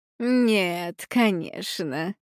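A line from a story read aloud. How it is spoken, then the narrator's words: Gentle, affectionate. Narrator (Russian): произнесла она ласково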